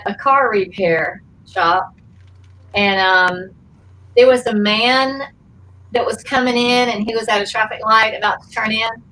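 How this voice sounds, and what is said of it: Southern US accent. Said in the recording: “where are you from with that accent? ... Atlanta, Georgia”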